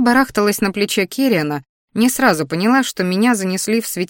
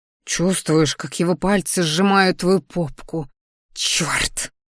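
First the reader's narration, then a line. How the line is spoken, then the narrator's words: Growl. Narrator (Russian): Рыкнула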